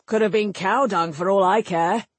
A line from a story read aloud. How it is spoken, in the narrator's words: Sligin snorted